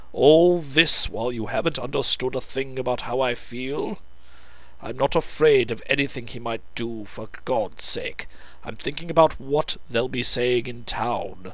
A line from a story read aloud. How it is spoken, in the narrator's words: said Lance irritably